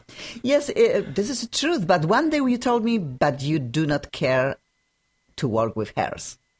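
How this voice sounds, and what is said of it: Slight foreign accent. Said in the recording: “I think I have a small accent, and I think it will stay with me”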